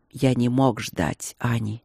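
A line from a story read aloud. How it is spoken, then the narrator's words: Quiet. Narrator (Russian): проговорил тихо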